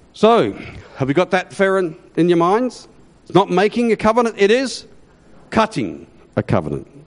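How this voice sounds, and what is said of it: Australian-accented English. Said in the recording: “Hebrew with an Australian accent. And they had a real difficulty sometimes understanding my Australian accent”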